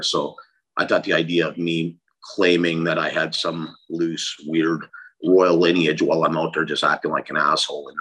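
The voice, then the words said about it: Strong Canadian-sounding accent. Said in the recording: “I got this really strong accent that people usually associate with Canada”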